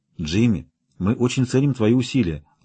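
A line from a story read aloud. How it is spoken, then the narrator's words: Gentle. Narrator (Russian): ласково сказала Кармен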